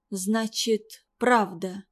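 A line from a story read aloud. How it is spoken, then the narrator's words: Faint, defeated voice. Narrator (Russian): угасшим голосом произнесла Кандалат-Биби и низко опустила голову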